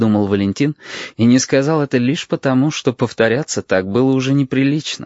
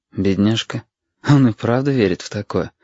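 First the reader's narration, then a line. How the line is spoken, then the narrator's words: Inward sigh. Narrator (Russian): вздохнул про себя Валентин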